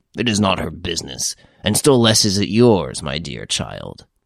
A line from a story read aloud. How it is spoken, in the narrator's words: added gruffly